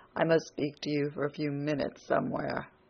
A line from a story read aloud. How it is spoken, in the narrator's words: said to her in a low voice